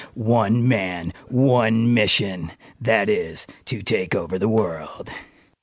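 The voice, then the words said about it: Deep raspy movie-trailer DJ voice. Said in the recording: “sexy voice ... The raspiness ... The downtown DJ voice”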